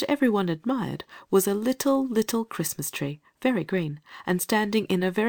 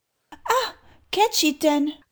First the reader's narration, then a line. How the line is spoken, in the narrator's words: cried the lady